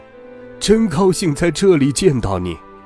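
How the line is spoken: Grandfather calling out. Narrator (Chinese): 爷爷喊着

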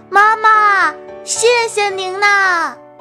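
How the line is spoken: Loud shout. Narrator (Chinese): 小狐狸放开嗓门喊道

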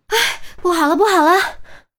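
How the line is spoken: Breathless, repeated shouting. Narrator (Chinese): 韩淼气喘吁吁，还不断的喊着

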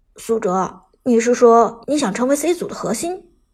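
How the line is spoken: Low, quiet question. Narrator (Chinese): 阿飞低声问道

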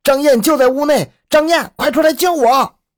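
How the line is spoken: Desperate shout. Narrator (Chinese): 情急之下，那个人一面大喊

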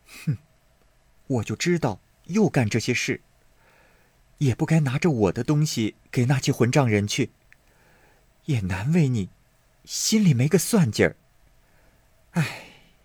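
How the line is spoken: Sighing. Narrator (Chinese): 袭人点头叹道

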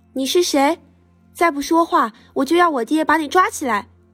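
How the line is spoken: Shouting. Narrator (Chinese): 他喊道

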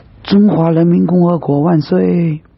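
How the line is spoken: Sudden distant shouts. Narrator (Chinese): 忽然有几声呐喊传来

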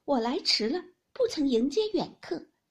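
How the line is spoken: Laughing, from afar. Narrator (Chinese): 后院中有人笑声，说

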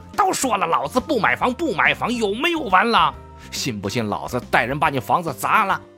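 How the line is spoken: Furious roar. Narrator (Chinese): 风千月的一声怒吼

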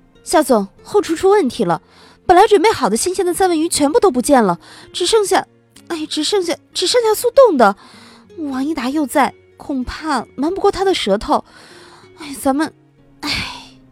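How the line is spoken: Hurried. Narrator (Chinese): 梁莹莹急忙说

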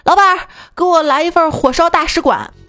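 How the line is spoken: Loud roar. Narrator (Chinese): 有人吼

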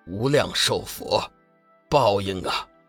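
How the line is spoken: Low intoning. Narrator (Chinese): 天行上人低声宣道

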